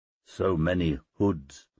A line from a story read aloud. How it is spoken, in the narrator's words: I murmured